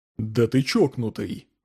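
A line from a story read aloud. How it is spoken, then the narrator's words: Breathed out. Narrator (Russian): выдохнул Джонсон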